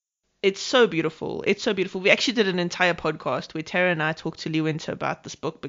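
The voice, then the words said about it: Speaks with a distinct accent. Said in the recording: “I like hearing your voice... It's the accent.”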